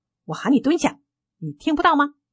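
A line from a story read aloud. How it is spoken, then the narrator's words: Furious roar. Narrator (Chinese): 她怒吼道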